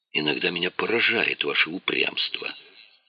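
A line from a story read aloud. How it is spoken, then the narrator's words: Muttering. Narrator (Russian): пробормотал Леонидов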